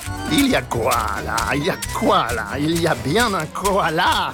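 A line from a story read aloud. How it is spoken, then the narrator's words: Sneering laugh. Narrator (French): ricanait-il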